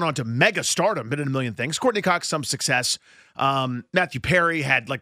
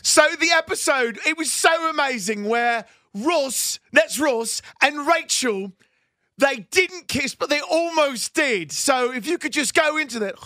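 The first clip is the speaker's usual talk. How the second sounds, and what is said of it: Excited James Corden impression. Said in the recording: “your best impression of James Corden just excitedly trying to interview the cast”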